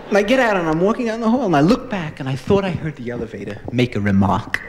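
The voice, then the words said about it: Slight New York accent. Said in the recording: “I talk, I think, with a slight New York accent.”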